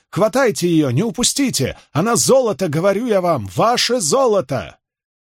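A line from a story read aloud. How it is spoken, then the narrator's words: Full-throated yelling. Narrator (Russian): Какой-то костлявый малый со скалом хорька во всю мочь кричал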